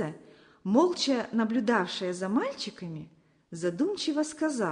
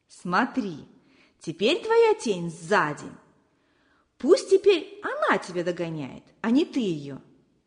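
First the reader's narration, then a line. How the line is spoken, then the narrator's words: Laughing. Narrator (Russian): засмеялся Алёша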